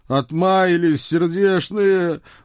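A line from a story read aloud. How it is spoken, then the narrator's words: Heartfelt moan. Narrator (Russian): с чувством простонал он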